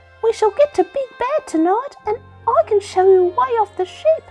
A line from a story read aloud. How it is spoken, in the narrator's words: said little Jerboa eagerly